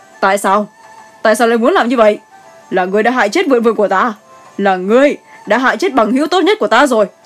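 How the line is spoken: Loud shout. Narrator (Vietnamese): hét to lên

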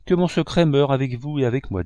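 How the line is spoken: Plain. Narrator (French): dit-elle

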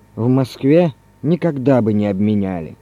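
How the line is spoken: After a loud sigh. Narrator (Russian): Иван Иванович, шумно вздохнув, сказал

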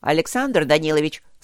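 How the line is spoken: Dry, tired tone. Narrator (Russian): сказал он тем суховатым тоном, который бывает у очень уставших и поэтому берегущих свои силы людей

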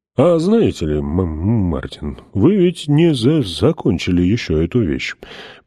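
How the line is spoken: Deep sad voice. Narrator (Russian): произнес глубоким печальным голосом

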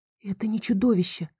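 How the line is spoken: Breathless. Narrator (Russian): выдохнула я

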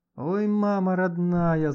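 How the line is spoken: Sudden groan. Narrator (Russian): застонал вдруг Леха

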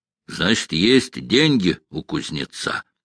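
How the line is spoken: Plain. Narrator (Russian): сказал князь

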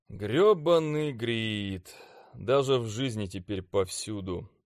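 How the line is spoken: Grumbling. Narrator (Russian): ворчал я

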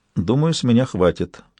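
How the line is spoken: Muttered. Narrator (Russian): пробормотал Сойер

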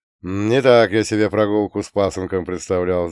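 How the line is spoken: Sighing. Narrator (Russian): вздохнул он

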